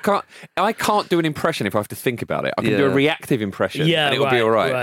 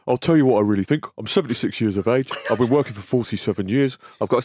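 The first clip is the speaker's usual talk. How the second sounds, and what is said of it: Cockney-tinged impression of an older man. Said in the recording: “his Roy Hodgson impression ... you're totally Michael Caine ... I can see the Bernie bits in that though ... it's just sort of a Cockney Bernie”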